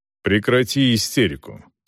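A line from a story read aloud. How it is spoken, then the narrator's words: Stern. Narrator (Russian): строго проговорил Селдон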